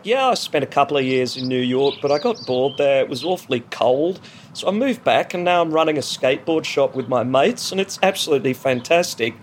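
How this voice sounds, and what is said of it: Slightly bored Melbourne Australian accent. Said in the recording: “presenting this ad to you in a kind of like slightly bored Melbourne accent, which is different than a really aggressive, like chippy, upbeat Sydney accent”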